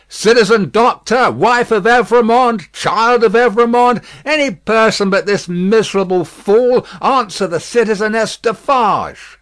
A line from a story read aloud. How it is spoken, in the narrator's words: she raised her voice and called out